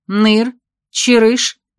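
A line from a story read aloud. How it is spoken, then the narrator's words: Sharp immediate shout. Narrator (Russian): немедленно прикрикнула Веся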